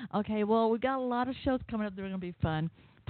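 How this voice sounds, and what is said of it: Southern American accent. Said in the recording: “I know you can tell by my accent, I'm here in Georgia”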